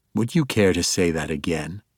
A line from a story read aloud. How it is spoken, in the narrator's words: Zach asked in a low, even voice